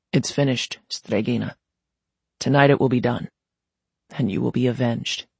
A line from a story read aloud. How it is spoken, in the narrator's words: he added softly